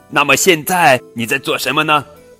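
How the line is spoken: Shouted. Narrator (Chinese): 驴子叫道

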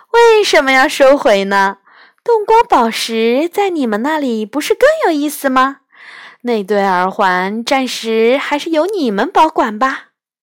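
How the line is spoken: Hearty laughter. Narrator (Chinese): 狐仙哈哈笑着说

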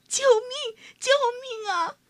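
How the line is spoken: Crying out. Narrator (Chinese): 哭喊着

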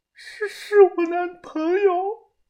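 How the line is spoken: Sobbing. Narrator (Chinese): 小白抽泣的说道

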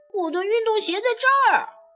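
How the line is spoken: Shout. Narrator (Chinese): 保罗大喊一声

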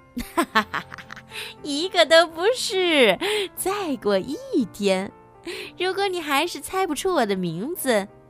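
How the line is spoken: Laughing, smug. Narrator (Chinese): 小妖怪还是大笑着得意地说

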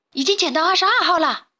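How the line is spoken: Sudden call. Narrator (Chinese): 忽然，在一旁把风的鼻涕虫喊道

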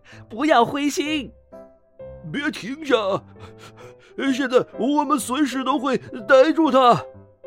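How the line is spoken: Breathless, panting. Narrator (Chinese): 狐狸先生气喘吁吁地说

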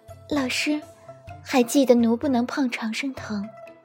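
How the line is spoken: Soft hesitant voice. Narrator (Chinese): 姬恒 好一会儿轻声道

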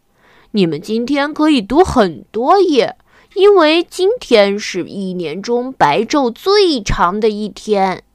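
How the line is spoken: Smiling reply. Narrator (Chinese): 太阳先生笑着回答

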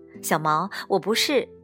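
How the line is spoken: Amused laugh. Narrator (Chinese): 我失笑说

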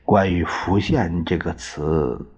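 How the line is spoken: Soft question. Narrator (Chinese): 司徒十分留心，他轻声的问

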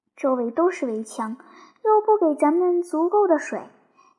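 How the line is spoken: Sighing fish. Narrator (Chinese): 一条鲤鱼叹了一口气说

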